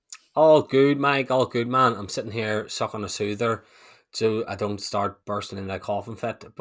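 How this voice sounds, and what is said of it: Croaky, slightly hoarse voice. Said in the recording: “A little bit sick, a little bit under the weather ... his voice is a little bit croaky”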